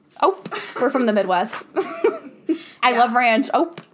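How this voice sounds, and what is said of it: Put-on American Midwest accent. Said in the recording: “Give us your best American accent. ... Give us an ope.”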